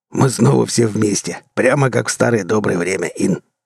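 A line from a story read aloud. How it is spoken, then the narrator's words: Short laugh. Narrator (Russian): хохотнул Брас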